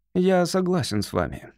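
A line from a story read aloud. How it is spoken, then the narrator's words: Dry, curt. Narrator (Russian): сухо произнес он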